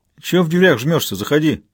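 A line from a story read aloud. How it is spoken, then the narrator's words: Cheerful greeting. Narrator (Russian): весело приветствовал Габазов Толян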